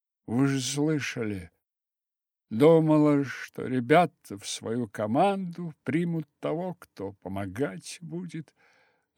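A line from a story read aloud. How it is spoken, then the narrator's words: Sad young girl. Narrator (Russian): ответила девочка грустно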